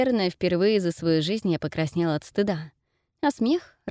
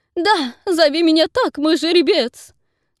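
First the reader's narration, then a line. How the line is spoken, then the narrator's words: Squeal. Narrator (Russian): взвизгнул Нейтан и рассмеялся от своей же реплики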